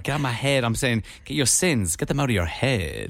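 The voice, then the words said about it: Funny put-on accent. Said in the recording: “It's a funny accent you're doing.”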